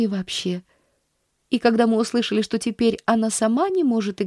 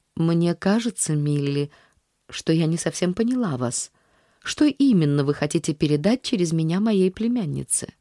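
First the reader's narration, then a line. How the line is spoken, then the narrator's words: Calm statement. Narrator (Russian): спокойно заявив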